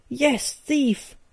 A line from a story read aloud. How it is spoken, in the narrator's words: I roared